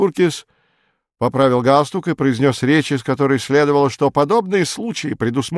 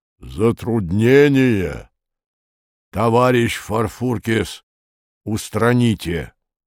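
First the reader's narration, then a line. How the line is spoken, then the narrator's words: Deep cavernous booming voice. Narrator (Russian): словно из мамонтовой пещеры, густо прогудел голос Лавра Федотовича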